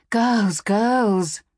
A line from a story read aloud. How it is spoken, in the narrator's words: Mother said, sighing